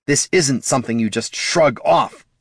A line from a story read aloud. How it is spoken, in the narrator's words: snarled the bard